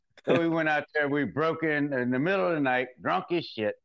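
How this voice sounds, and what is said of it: Southern US regional accent. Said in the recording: “I'm trying to get that accent. ... You sound like somebody from TV. ... I'm gonna say Arkansas.”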